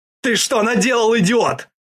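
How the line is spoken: Yelling. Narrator (Russian): орал командир

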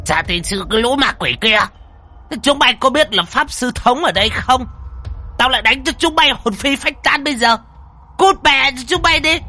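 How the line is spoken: Hissing. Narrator (Vietnamese): Lão mà rít lên

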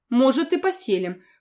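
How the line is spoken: Emperor snorting. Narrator (Russian): хмыкнул император

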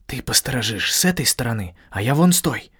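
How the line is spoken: Whisper. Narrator (Russian): шепнул я Гандалу

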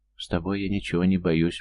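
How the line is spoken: Whisper. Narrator (Russian): прошептала она

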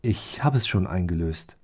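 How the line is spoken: Gentle explanation. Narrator (German): erklärte er sanft

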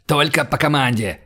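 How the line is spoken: Barking. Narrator (Russian): рявкнул он

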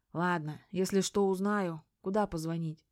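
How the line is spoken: Resigned, sighing. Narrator (Russian): как-то обреченно вздохнув, сказал

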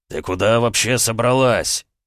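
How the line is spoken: Barked. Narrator (Russian): Рявкнул он

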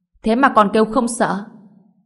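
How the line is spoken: Burst of laughter. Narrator (Vietnamese): Ngô Bình cười phá lên

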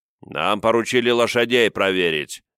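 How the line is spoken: Rude, gruff reply. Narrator (Russian): не менее грубо ответил дровосек

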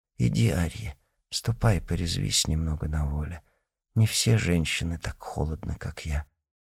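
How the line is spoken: Whisper. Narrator (Russian): Она шептала

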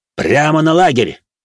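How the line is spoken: Barking. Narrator (Russian): рявкнул над духом Зода

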